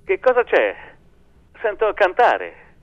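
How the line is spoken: Oddly festive shout. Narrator (Italian): gridava, stranamente festoso

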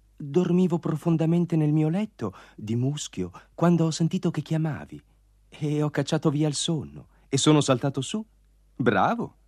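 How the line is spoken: Whisper. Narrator (Italian): sussurrò Fata Primavera

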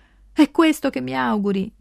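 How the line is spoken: Shouting across a stream. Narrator (Italian): grida da una sponda all'altra del ruscello

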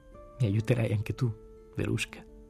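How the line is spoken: Broken voice. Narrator (Italian): Le chiesi con voce rotta

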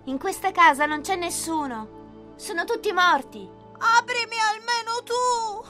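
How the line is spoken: Crying, pleading shout. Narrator (Italian): gridò Pinocchio piangendo e raccomandandosi

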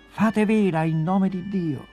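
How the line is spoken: Shouted. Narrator (Italian): gridò ai marinai

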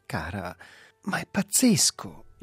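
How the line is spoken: Exclaimed by a man, recovering. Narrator (Italian): esclamò lui, riprendendosi

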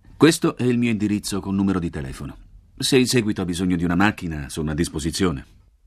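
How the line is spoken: Impersonal tone, driver. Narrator (Italian): l'autista mi offre un biglietto da visita e dice con tono impersonale

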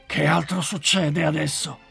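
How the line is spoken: Woolly one's growl. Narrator (Italian): ringhiò il lanoso

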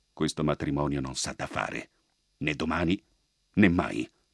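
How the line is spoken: Solemn commanding whisper. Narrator (Italian): gli disse il bravo all'orecchio, ma in tono solenne di comando

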